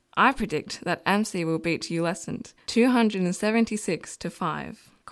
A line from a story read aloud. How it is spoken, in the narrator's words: Corf laughed